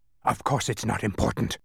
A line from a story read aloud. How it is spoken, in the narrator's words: he snarled angrily